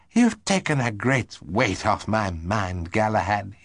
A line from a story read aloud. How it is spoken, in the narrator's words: he said